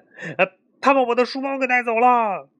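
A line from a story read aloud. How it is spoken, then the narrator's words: Shouting. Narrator (Chinese): 多罗西大喊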